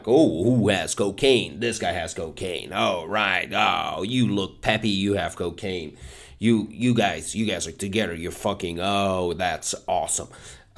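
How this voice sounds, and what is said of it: Energetic American comedy host voice. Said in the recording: “my impression of American style hosting ... way too energetic”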